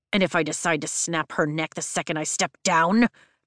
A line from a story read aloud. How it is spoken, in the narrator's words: Jack growls